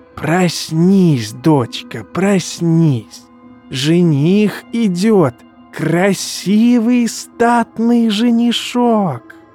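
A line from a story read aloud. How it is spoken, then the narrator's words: Wheezing old woman muttering. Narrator (Russian): Просипела старуха, бормоча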